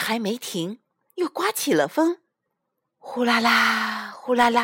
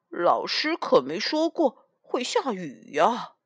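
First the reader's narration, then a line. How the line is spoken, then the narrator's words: Elephant mumbling. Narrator (Chinese): 大象斑斑嘟囔着说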